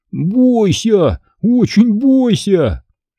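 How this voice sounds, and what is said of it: Mocking imitation of Mr. Amga. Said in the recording (Russian): “очень похоже, передразнил мистер Амга”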